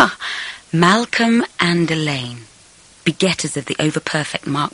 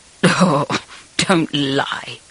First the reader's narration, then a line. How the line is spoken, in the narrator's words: I muttered